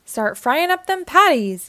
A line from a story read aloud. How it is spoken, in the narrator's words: yelled Mr